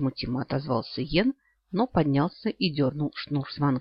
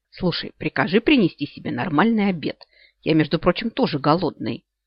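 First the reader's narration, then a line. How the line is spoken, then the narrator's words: Irritated snap. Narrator (Russian): не выдержал и раздраженно огрызнулся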